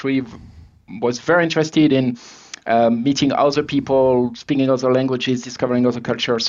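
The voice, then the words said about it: French accent. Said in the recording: “you probably recognize my accent, right? I'm French originally, was born in France”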